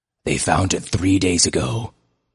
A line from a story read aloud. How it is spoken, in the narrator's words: he told them grimly